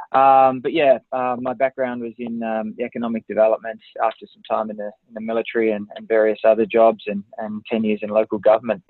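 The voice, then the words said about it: Australian accent, Tasmanian. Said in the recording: “this funny accent that you're hearing. So that's an Australian accent, Tasmania to be precise”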